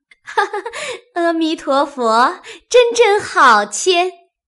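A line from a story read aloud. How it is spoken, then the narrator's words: Clapping and laughing. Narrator (Chinese): 拍手笑道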